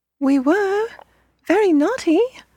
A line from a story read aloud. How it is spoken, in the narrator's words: the children cried again